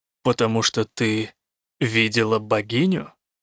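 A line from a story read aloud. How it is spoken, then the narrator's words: Quiet. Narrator (Russian): тихо сказал он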